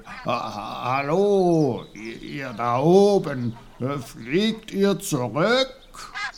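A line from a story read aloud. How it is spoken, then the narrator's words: Sudden loud call. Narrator (German): Plötzlich rief laut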